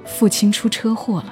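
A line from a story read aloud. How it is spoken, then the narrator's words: Trembling voice. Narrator (Chinese): 他声音颤抖地告诉我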